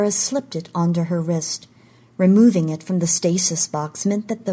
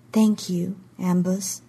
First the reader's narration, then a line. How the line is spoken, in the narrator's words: she said softly